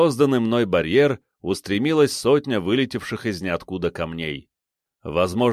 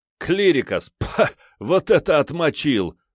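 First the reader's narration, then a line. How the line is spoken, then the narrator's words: Loud guffawing. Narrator (Russian): снова захохотал я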